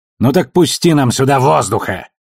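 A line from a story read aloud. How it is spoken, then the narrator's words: Barking. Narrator (Russian): рявкнул Ашфорд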